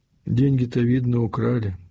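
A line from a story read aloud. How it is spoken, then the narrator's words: Plain. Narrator (Russian): спросила мать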